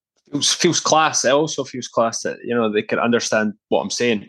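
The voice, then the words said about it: Broad Fife Scottish accent. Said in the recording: “my broad Fife accent”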